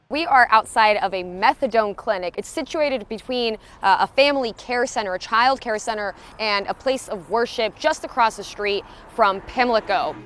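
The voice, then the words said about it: TV news reporter voice. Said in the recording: “I could not stop doing the reporter voice,”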